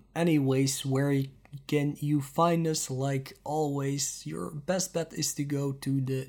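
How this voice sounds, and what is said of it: Strained, failing voice. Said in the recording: “my voice is getting weirder and weirder. I think I might have caught something that is destroying my voice. I've lost my voice 2 times already today”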